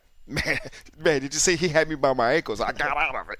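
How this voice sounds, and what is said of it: Imitates another person's voice. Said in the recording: “good little Andrew Luck impression”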